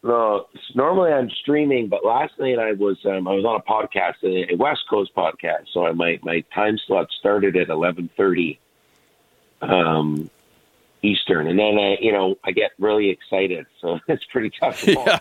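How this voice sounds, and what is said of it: Rough, tired-sounding voice. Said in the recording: “You sound a bit rough. You sound a bit rough. ... You must have had a late session last night.”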